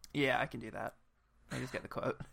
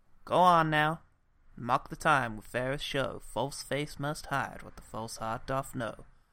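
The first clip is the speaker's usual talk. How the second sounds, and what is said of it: Put-on Western American accent. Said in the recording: “like, a Western American accent”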